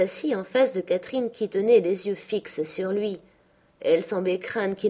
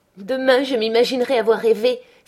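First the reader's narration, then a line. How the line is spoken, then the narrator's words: Crying out. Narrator (French): s'écria-t-elle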